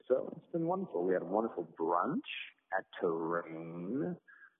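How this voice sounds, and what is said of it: Sing-song, musical lilting speech. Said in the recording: “talking in a musical lilt”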